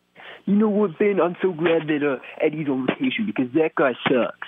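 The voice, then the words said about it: Imitates another person's voice, badly. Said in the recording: “that was a horrible Brian Scott impression ... That is a horrible impression. ... You nailed how bad that was.”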